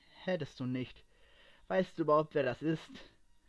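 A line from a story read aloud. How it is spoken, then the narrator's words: Calm question. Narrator (German): fragte er ruhig nach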